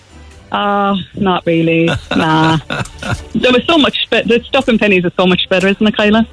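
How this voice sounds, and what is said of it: Australian accent. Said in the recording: “You got an Australian accent there, kid. ... Kind of slipped out then.”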